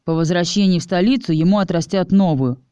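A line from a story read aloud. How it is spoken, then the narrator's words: Scoffing snort. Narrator (Russian): хмыкнул Чес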